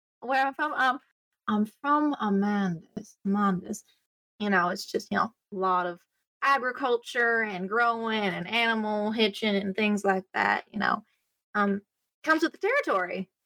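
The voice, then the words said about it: Unfamiliar put-on character accent. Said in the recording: “I haven't heard that accent in my travels so far.”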